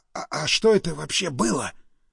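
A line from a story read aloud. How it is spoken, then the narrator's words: Stunned whisper. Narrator (Russian): прошептал ошарашенный Стас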